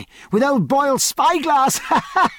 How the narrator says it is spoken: cried

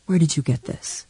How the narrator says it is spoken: He would whisper

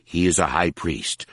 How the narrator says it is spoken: Harar said, then sighed with purpose

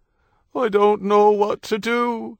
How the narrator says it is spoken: she wailed

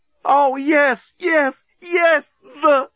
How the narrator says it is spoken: she screamed

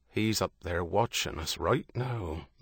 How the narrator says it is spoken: Liam said, his voice low

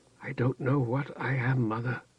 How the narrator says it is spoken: she whispered in her voice that was seldom more than a whisper

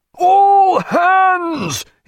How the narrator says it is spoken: his voice tearing blood from his throat

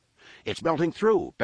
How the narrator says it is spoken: Benson Tomry cried

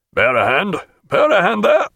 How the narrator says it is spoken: he called out

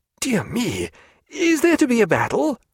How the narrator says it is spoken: cried Stephen

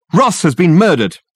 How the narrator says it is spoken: he shouted

